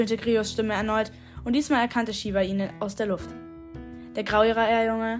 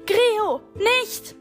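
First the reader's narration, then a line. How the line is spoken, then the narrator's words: Shout. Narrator (German): schrie Shiva ihm zu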